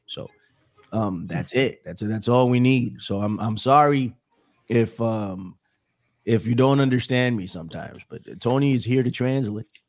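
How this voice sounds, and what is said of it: Unwell voice, cutting in and out. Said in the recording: “I'm a little under the weather. My my voice may come in and out ... it's affected my voice, and I've never recovered”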